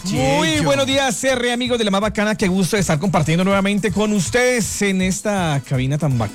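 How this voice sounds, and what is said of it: Radio announcer voice. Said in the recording (Spanish): “Tiene voz de locutor.”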